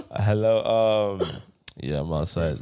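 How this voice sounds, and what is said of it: Mellow, sexy low voice. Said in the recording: “it's about 2 a.m. So my voice is a bit more mellow. ... Your voice sounded so sexy.”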